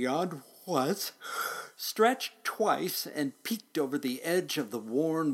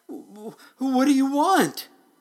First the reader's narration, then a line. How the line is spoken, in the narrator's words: The driver, just as frightened as could be, cried out